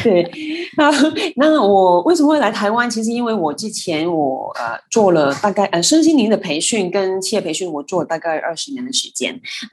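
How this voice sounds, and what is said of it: Hong Kong accented Mandarin. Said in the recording (Chinese): “听我口音都知道我是香港人...口音还是像这样子怪怪的”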